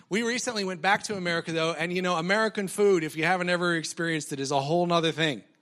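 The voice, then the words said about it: American accent with twang. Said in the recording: “the twang in my voice that you hear is not Tamworth country twang... I come from a long line of rednecks... in the United States. I'm from Colorado originally... still have the accent, still have the American accent.”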